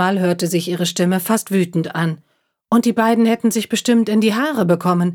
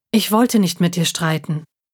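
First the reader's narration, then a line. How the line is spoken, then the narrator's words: Calm. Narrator (German): sagte ruhig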